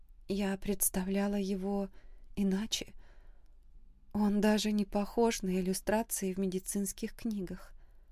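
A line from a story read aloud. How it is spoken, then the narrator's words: Said timidly. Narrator (Russian): робко сказала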